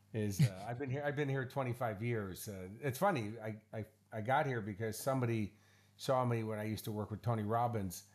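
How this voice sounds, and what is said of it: American accent. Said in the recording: “the American accent doesn't belie where you are”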